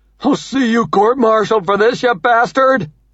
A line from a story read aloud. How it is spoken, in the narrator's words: Monkberg hollers